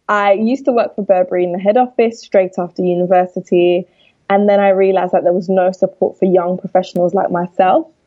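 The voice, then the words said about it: London accent. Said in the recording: “I'm from London, which you'll be able to tell by my accent.”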